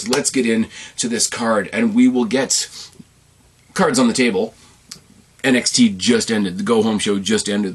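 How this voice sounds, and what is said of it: Hoarse, strained voice. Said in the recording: “losing my voice because I'm always losing my voice. Why wouldn't I be losing my voice?”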